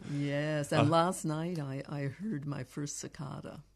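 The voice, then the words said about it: Canadian accent. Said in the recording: “You have a good Canadian accent when you say cicada.”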